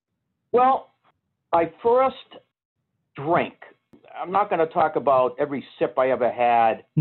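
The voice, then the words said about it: Strong Boston accent. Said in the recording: “I love the way you talk ... I have a strong Boston accent ... Yeah, you do”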